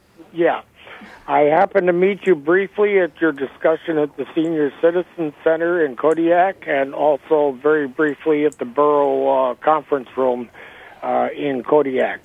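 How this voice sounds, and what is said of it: Hoarse, strained voice. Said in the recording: “apologize for my voice. I've got a little bit of laryngitis here. I may be difficult to hear.”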